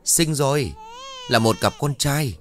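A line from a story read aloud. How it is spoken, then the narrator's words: Excited midwife's voice. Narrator (Vietnamese): tiếng của bà đỡ vang lên đầy phấn khởi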